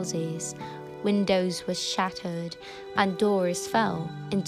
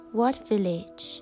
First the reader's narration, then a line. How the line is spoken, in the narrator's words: asked the boy